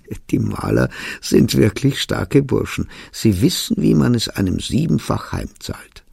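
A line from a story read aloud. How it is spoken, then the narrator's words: Amused slurring. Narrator (German): Der Zwischenfall amüsierte ihn, und er lallte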